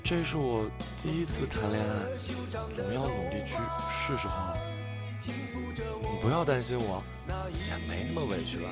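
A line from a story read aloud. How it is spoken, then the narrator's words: Soft, embarrassed. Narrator (Chinese): 他脸红了又白，轻声说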